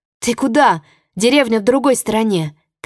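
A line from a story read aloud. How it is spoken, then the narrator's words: Shouting. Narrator (Russian): кричала Чи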